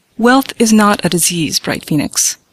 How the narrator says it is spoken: my father said sternly

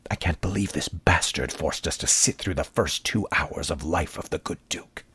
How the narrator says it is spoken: He had been waiting quite a while to air his principal grievance, and now whispered

